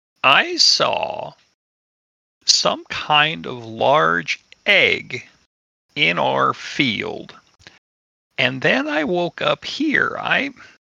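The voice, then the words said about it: Very hoarse voice. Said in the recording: “with a very hoarse voice”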